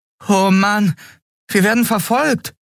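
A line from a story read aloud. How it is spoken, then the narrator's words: Boy exclaiming. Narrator (German): rief der Junge aus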